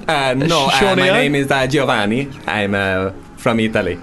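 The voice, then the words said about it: Weird put-on Italian accent. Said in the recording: “This is a weird Italian accent.”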